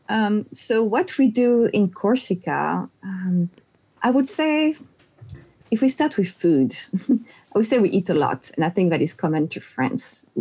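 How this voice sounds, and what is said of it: Corsican French accent. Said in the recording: “I'm from Corsica, which is a little island in the Mediterranean Sea, which is part of France. And everyone will notice pretty fast, my accent.”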